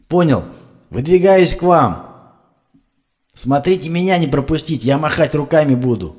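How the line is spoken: Yelling. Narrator (Russian): заорал Кузьмич

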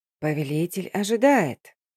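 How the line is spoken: Wheezy, feigned deference. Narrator (Russian): с напускным почтением, просипел Шерат

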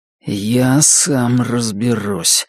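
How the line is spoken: Low grim voice, wounded. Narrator (Russian): сказал Норрис низким и мрачным голосом, прижимая к груди раненую руку

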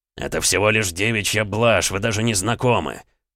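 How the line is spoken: Barked. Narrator (Russian): рявкнул Александр

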